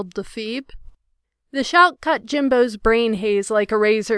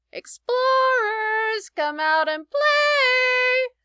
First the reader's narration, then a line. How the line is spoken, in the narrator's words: screeched the Phoebe